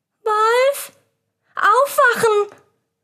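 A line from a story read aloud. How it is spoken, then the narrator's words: Calling out. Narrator (German): rief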